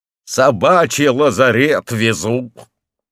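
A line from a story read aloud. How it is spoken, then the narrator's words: Carter shouting. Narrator (Russian): Ломовик крикнул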